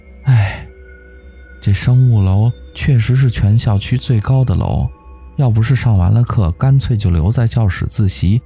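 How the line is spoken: Sighing lament. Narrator (Chinese): 我不由感叹着

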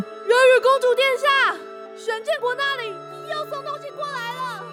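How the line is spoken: Hurried shouting along the way. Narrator (Chinese): 前来询问的贵族或仆役们继续沿路大喊

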